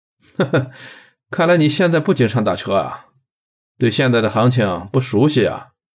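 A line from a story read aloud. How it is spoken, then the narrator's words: Laughing. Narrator (Chinese): 金刀 却笑了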